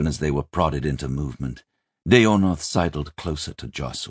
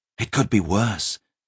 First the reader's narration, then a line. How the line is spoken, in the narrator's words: he whispered to the prince